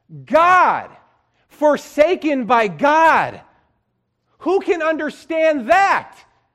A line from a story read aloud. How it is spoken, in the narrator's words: he finally shouted out